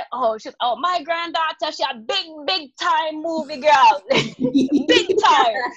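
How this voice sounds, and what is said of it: Imitates another person's accent. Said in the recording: “do the accent”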